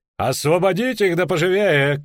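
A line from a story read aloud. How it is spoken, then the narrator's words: Shouted. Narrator (Russian): крикнул он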